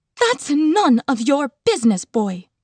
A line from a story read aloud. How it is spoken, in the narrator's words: she snapped